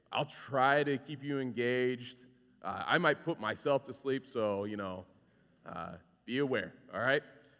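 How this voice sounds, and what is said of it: Deep, raspy, monotone congested voice. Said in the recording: “sorry for my voice. Got some sinus ... I feel like I'm very monotone right now and really deep and raspy”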